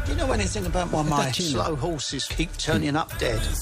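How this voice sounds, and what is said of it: English accent. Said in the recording (Spanish): “ahí hay un acento inglés”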